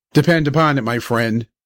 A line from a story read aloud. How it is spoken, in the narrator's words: said my father